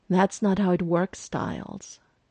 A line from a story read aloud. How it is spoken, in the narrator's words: Deaton sighs